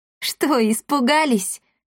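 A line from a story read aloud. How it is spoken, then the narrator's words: Loud laughing. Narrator (Russian): захохотала Дарина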